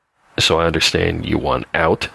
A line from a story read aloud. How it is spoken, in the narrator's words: said Mr